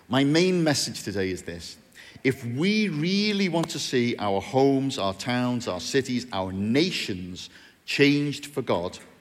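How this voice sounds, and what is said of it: Bootle (North Liverpool) accent. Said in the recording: “Is anyone having trouble understanding my accent? Do you need an interpreter? Go and see the people from Bootle.”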